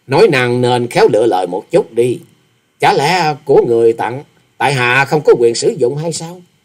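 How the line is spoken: Sneering. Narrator (Vietnamese): Hoa Sĩ Kiệt cười khẩy

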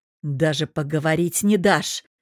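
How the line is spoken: Angry hiss, man. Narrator (Russian): прошипел мужчина

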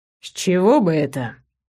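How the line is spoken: Incredulous snort. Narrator (Russian): недоверчиво хмыкнул Хальдак

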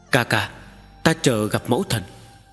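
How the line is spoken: Calm, soft. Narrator (Vietnamese): Tần Mục lấy lại sự bình tĩnh, khẽ nói

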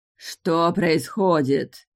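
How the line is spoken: Barking shout. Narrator (Russian): рявкнула вампиресса

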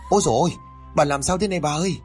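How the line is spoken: Screaming while crying. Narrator (Vietnamese): Tiếng thét kèm với tiếng khóc của con Mận

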